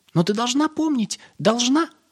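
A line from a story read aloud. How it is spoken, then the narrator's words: Squeaky, little red bird. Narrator (Russian): пропищала красная птичка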